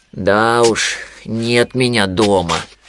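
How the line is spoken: Sighed. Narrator (Russian): вздохнул Винни

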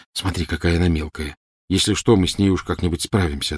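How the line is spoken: Plain. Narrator (Russian): ответил Гарри

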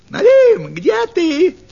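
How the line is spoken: Shouting fox. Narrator (Russian): крикнула лисица

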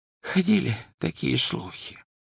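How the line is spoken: Whispering. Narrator (Russian): прошептал Оливандер

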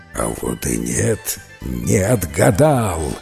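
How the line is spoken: Serpent's growl. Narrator (Russian): зарычал змей

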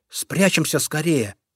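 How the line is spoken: Whisper. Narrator (Russian): зайка Петя прошептал

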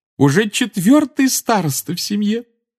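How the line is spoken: Adoring exclamation. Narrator (Russian): С обожанием воскликнула она

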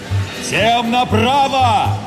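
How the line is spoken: Captain shouting. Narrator (Russian): закричал капитан

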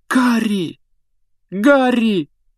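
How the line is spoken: Exclaimed. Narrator (Russian): воскликнула Гермиона

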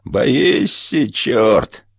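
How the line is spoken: Thin gloating shout. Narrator (Russian): возница начинал кричать тонким злорадным голосом

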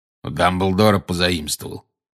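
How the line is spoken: Growl. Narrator (Russian): прорычал Грюм

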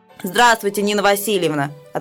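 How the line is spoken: Deep bass voice. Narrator (Russian): отвечает Сережа басом

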